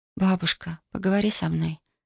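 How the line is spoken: Whispered. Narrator (Russian): шепнула она

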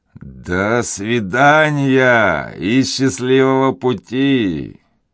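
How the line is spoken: Mocking shout. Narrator (Russian): насмешливо прокричал им вслед Деграмон

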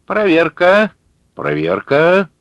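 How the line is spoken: Loud, clear, loudspeaker. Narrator (Russian): сказал динамик громко и внятно

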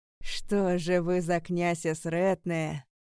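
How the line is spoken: Hissing. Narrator (Russian): прошипел Аларик

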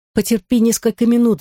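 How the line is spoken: Pleading. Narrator (Russian): взмолилась Мари-Жозеф

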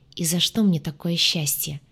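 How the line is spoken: Soft laugh. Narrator (Russian): тихо рассмеялся мужчина

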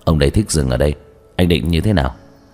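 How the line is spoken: Cold. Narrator (Vietnamese): lạnh lùng

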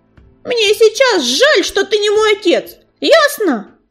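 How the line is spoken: Snapping back. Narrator (Russian): в тон ему огрызнулась Белочка

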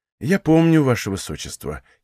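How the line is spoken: Sad. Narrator (Russian): кивнул он грустно

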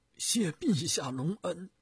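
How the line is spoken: Deeply moved, choked voice. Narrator (Chinese): 徐达听了感慨万分，声音哽咽地说

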